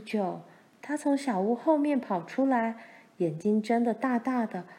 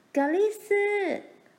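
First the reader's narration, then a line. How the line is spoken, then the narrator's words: Shouting while running. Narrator (Chinese): 他一面跑一面叫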